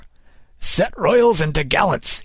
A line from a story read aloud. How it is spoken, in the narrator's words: he cried